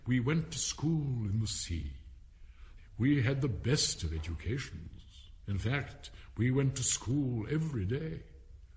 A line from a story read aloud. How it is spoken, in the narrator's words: the Mock Turtle went on at last, more calmly, though sobbing a little now and then